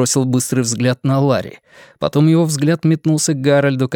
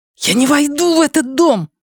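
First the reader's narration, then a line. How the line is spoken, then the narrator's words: Hissed. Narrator (Russian): прошипел Лео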